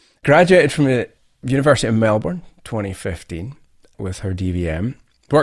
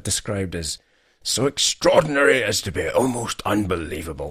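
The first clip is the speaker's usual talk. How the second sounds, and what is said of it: David Bellamy impression. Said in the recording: “That was more David Bellamy... Accent included.”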